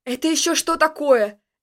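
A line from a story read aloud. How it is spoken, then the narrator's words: Yelling. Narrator (Russian): заорал я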